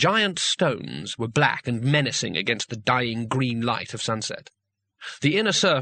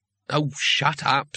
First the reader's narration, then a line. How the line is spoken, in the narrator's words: said Rincewind wearily